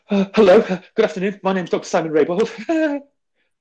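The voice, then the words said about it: Nervous, anxious rushed delivery. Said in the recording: “we let all the high pressure air at the top of our lungs out in that first bit ... you sound a bit nervous, you sound anxious”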